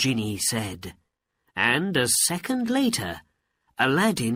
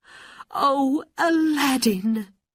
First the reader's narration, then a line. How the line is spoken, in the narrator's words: she cried